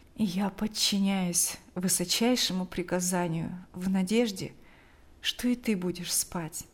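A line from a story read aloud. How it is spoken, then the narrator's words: Quiet fatherly voice. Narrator (Russian): произнес отец тихо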